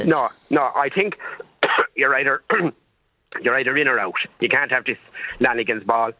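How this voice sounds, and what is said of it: Slightly hoarse, congested voice. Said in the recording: “I've a little bit of a head cold now, so forgive me if I sound a little hoarse.”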